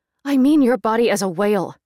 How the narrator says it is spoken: she said, impatiently

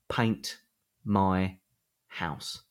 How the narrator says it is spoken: says slowly

